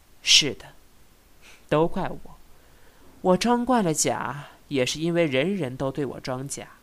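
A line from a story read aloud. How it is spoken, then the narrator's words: Sighing. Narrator (Chinese): 他叹道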